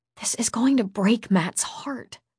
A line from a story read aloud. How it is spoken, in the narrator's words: I whispered